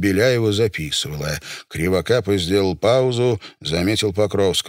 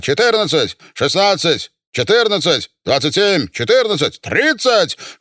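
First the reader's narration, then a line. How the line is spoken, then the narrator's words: Shouting. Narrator (Russian): Кривокапа кричал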